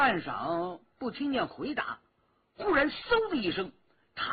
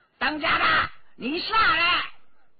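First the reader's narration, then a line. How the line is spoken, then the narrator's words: Old woman yelling loudly. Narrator (Chinese): 老妇 纵声大叫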